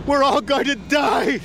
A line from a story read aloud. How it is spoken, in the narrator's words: screamed a man